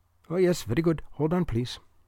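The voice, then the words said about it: Thick Indian accent. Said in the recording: “He had a remarkably thick Indian accent for anyone named Scott.”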